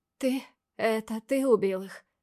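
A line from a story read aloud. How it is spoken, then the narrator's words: Trembling voice question. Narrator (Russian): Дрожащим голосом спрашиваю я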